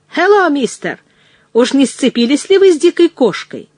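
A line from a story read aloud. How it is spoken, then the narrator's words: Shout. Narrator (Russian): Кто-то крикнул мне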